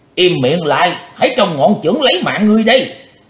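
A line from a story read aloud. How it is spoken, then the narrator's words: Loud shout. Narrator (Vietnamese): Quái khách lớn tiếng quát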